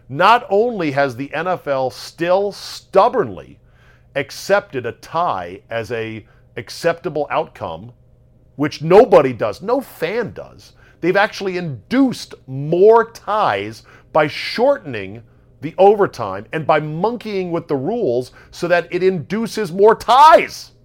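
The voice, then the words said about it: Loud, yelling rant. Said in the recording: “I'm not yelling, am I? I'm yelling, right?”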